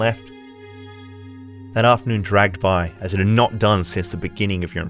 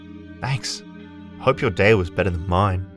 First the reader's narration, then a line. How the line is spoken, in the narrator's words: they muttered